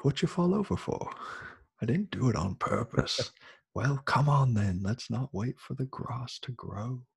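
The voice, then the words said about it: Put-on British accent. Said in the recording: “I thought you told me you weren't going to do a British accent again ... I have to quote it all in British.”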